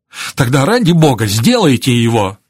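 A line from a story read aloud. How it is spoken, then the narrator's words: Shouting. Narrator (Russian): закричал Израиль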